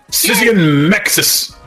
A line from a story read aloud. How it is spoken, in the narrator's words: Ryan yelled